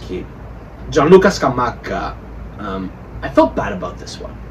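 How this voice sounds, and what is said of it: Usual voice. Nothing is said of it.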